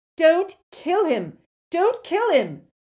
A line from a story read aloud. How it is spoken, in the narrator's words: Malfoy yelled at Crabbe and Goyle